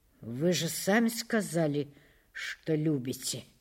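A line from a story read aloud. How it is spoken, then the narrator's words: Muttered. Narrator (Russian): пробормотал Улесов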